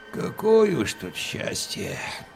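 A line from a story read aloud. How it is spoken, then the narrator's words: Near-silent mutter. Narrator (Russian): почти беззвучно пробурчал Евсей Карпович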